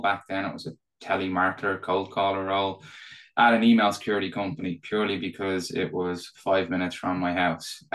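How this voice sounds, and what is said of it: Irish accent. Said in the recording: “probably tell from my accent. Uh, so I'm Irish.”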